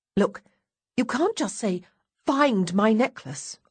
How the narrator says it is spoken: I exclaim in exasperation

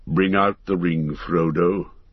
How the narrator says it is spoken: said Gandalf solemnly

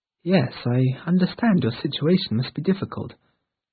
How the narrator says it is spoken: said Eleanor as calmly as she could

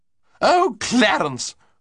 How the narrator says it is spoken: cried Lady Constance, with the exasperation which the head of the family's entry into a room so often caused her

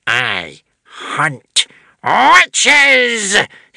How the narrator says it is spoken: he snarled

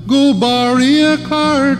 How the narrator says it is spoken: cried Billy Barlow

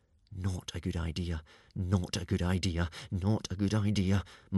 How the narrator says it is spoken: muttered Hiccup

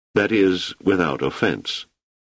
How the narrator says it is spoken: added quietly

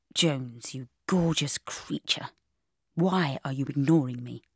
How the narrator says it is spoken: he murmured

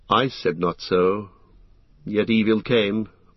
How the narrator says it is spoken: answered Legolas sadly

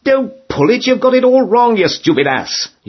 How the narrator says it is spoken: you shout

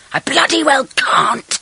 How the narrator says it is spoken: shrieked Magda

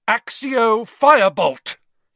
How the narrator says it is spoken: he shouted

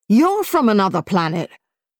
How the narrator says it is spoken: he spluttered

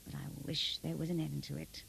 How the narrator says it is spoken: murmured to himself

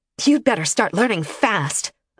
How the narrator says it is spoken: Aloha snapped

